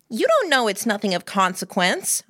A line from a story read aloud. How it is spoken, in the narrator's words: I said, pitching my voice higher